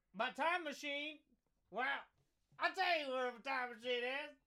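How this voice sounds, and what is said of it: Put-on Cockney accent. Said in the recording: “I got a Cockney accent.”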